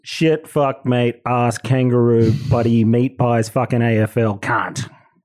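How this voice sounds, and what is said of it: Australian accent. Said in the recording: “now you sound Australian”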